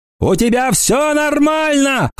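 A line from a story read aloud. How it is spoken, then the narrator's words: Shouted. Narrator (Russian): крикнул он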